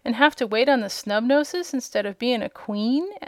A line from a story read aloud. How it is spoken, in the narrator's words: said Trot